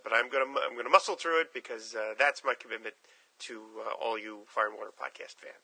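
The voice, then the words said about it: Rough, sick-sounding voice. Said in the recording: “as you could probably tell from my voice, uh, this is not due from years of smoking. Uh, I am fighting off a particularly nasty cold ... my voice is a, uh, more than a bit off here”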